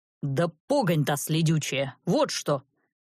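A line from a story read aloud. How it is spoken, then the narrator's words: Barking. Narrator (Russian): рявкнул он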